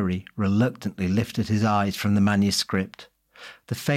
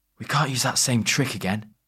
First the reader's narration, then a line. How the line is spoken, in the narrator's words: Nasteri whispered